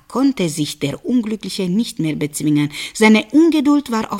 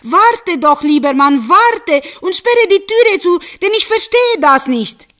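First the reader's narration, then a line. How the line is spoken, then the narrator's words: Calling out from afar. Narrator (German): von Weitem rief sie ihm zu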